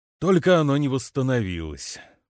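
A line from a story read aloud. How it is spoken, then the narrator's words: Muttered under breath. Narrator (Russian): буркнул он себе под нос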